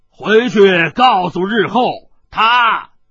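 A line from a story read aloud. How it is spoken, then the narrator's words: Hoarse shout. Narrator (Chinese): 洞穴中一个嘶哑的声音喝道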